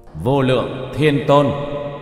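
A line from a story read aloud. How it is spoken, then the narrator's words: Raised voice. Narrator (Vietnamese): Tiểu Thất cất cao giọng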